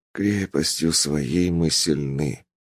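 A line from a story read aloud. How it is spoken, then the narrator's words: Muttering. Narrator (Russian): пробормотал я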